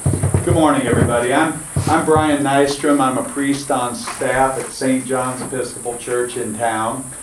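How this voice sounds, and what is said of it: Loud, projected speaking voice. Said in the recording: “Hope y'all don't feel like I'm yelling at you, but I want them to be able to hear me.”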